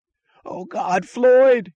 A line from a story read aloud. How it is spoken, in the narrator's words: he screamed